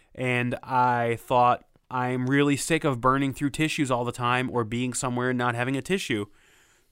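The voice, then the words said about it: Sick voice with a cold. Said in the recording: “I'm coming down with a cold, as you may hear in my voice”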